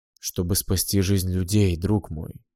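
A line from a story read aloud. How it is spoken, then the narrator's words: Weary king. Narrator (Russian): устало выговорил король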